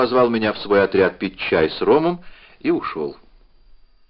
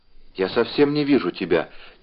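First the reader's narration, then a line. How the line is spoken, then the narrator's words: Quiet. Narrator (Russian): тихо сказала она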